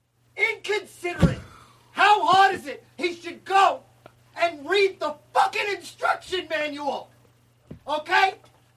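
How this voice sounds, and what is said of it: Yelling angrily. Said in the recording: “You're yelling at me... Why are you yelling at me like it's my fault?”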